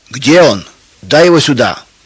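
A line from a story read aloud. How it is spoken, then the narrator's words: Shouting man. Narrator (Russian): кричал Федор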